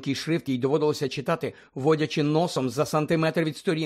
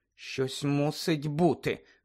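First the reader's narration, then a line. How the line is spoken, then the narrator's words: Muttering. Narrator (Ukrainian): бурмотіла Герміона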